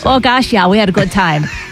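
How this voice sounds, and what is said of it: Put-on Midwestern American accent. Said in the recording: “Do it in a Midwestern accent.”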